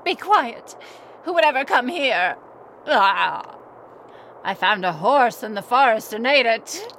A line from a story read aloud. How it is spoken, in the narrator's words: growled